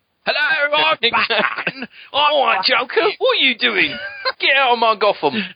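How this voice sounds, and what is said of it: Deliberately bad put-on Cockney accent. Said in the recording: “the bad Cockney accent”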